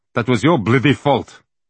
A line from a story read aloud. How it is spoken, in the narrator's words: he snapped at Mr